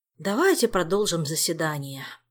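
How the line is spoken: Sighing. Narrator (Russian): вздохнул

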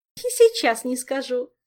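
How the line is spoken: Gloating giggle. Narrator (Russian): злорадно хихикнула Ольга

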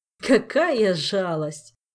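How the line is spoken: King laughing loudly. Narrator (Russian): расхохотался король

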